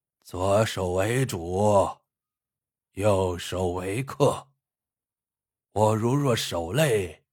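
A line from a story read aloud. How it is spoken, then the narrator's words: Calm old man. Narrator (Chinese): 向三老爷子淡淡的对萧六郎说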